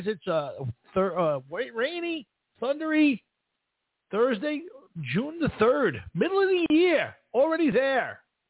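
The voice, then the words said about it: Macho Man-style twang. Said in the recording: “A little bit of a macho man twang to that. Yeah. Gotta love the macho man.”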